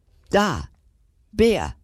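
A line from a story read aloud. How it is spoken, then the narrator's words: Excited boy calling. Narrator (German): ruft der Junge aufgeregt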